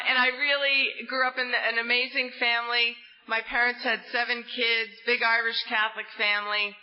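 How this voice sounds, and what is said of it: New Jersey accent. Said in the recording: “you might sense from my accent, I'm not from down south here, I'm from the great state of New Jersey”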